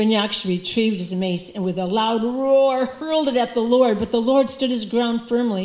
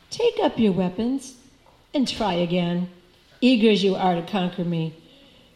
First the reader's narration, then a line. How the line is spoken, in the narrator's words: the Lord told the demon coolly